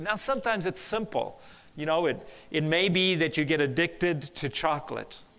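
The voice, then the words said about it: South African-influenced accent. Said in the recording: “I used to live at in South Africa. That's where my accent is from.”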